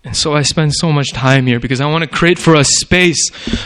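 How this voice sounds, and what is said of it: Usual voice. Nothing is said of it.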